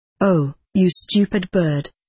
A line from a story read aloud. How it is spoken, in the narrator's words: replied Miss Matilda